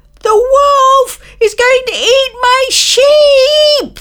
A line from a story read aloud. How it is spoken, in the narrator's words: the boy yelled